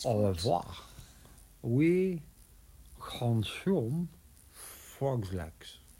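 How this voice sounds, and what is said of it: Mediocre put-on French accent. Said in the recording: “My French accent isn't as good as my Scottish accent.”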